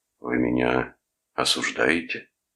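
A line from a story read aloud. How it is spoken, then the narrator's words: Hoarse stern question. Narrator (Russian): спросил Бойлон охрипшим суровым тоном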